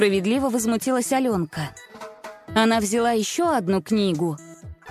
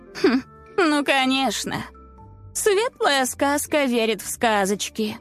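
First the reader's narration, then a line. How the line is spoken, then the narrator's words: Mocking snort. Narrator (Russian): насмешливо фыркнула Несмеяна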